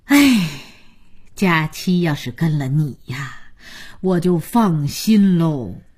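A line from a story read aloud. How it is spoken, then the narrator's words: Sighing grandmother. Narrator (Chinese): 姥姥叹口气说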